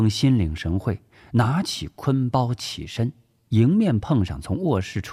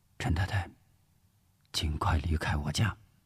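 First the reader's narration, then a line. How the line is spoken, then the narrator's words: Whisper. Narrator (Chinese): 吴石悄声说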